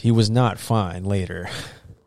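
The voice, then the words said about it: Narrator voice. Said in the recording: “Narrator voice.”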